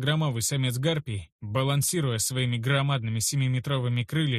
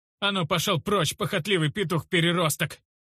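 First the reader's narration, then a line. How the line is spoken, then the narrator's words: Yelling. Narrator (Russian): Заорал я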